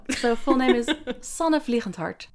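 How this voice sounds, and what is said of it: Foreign accent with soft G. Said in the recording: “say it in your beautiful, in your accent ... The soft G there”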